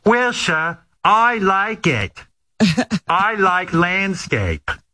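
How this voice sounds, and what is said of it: Cute accent imitating Millie Bobby Brown. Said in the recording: “in that cute accent”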